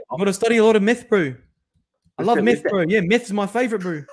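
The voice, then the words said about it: Put-on New Zealand accent. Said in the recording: “the New Zealander accent is beautiful”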